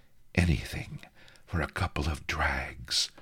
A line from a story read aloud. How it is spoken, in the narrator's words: she hissed